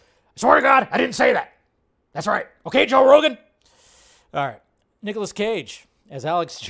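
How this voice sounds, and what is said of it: Usual voice. Nothing is said of it.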